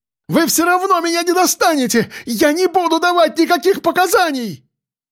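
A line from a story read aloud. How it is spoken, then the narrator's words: Frantic screaming. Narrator (Russian): Кричала она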